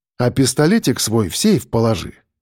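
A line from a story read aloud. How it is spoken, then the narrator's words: Calm. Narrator (Russian): добавил я спокойно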